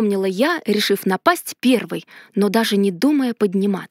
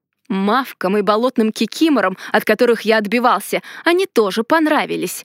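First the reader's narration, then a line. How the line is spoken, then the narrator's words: Growl. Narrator (Russian): рыкнул маг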